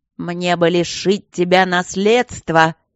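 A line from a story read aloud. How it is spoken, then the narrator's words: Menacing speech. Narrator (Russian): грозно сказал граф Кембридж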